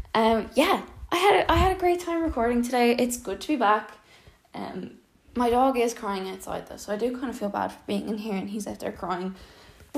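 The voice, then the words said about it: Out of breath while talking. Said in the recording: “I hope you could tell I'm out of breath because I'm walking around while I'm recording this.”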